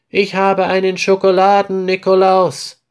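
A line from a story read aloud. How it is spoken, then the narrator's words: Happy call to sister. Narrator (German): ruft Peter glücklich seiner Schwester zu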